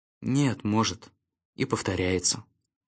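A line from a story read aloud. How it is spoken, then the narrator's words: Quiet. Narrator (Russian): тихо сказал Шустрик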